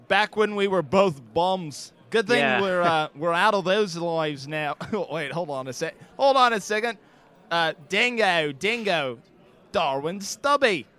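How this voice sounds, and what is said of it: Fading put-on Australian accent. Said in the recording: “I lose my Australian accent. I'm afraid ... your accent is it's going”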